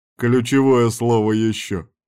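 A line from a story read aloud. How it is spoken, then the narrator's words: Chuckling. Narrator (Russian): хохотнул Ярван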